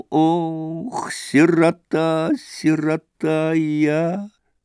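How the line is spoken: Singsong, as if crying. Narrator (Russian): заговорил он нараспев, будто бы плача

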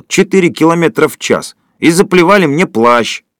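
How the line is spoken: Heavy sigh, sudden yell. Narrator (Russian): Водитель тяжело вздохнул и вдруг завопил

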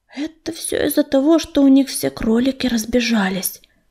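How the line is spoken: Muttered. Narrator (Russian): пробормотала Листвичка

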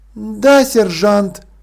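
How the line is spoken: Tired. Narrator (Russian): устало ответила она

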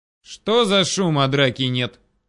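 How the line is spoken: Growled. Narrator (Russian): Рыкнул кто-то

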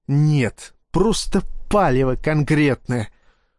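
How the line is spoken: Angry reply. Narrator (Russian): зло ответил Ермолов

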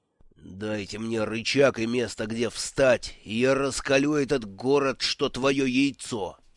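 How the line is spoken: Growling. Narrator (Russian): зарычал Симони

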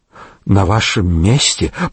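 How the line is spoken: Trembling voice. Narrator (Russian): проговорил дрожащим голосом хозяин пивного ларька

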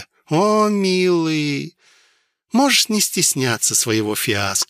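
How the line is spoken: Cooing with a smile. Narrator (Russian): широко улыбнувшись, проворковала вурдалачка

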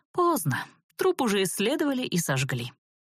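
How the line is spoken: Feigned sigh, elf. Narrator (Russian): притворно вздохнул эльф

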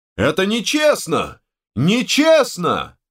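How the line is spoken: Outraged yell. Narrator (Russian): заорал распорядитель боев

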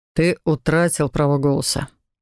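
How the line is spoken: Even, flat tone. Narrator (Russian): ровным тоном сообщил Канте

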